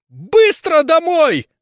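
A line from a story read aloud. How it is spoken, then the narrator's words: Sharp shriek. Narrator (Russian): взвизгивает резко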